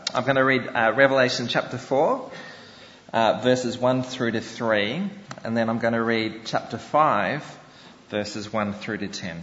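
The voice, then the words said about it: Australian accent. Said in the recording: “You probably think my accent is kind of a bit strange, but that's what you get for coming from down under.”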